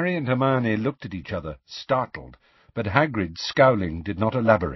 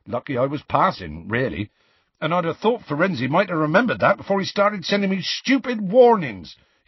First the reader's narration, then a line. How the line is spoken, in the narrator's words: he added hotly